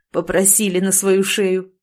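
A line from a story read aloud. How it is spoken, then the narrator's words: Short laugh. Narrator (Russian): хохотнул Марат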